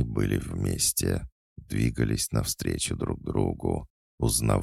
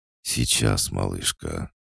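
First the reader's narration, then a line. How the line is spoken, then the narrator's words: Loud unrestrained moan. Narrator (Russian): Никита громко застонал, не стесняясь своих чувств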